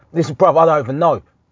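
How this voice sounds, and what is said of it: Imitates another person's accent and voice. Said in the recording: “this is literally his accent, voice.”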